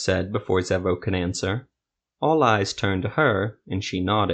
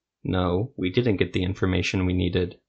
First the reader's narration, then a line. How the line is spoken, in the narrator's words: Zevo said flatly